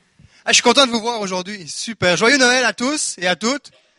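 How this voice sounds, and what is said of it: Quebecois French accent. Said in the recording (French): “mon accent du Québec ... Il est encore là? ... mes origines québécoises”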